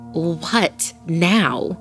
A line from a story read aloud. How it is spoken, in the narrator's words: She answered angrily